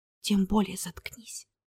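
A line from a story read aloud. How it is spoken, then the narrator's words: Whisper. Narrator (Russian): прошептала она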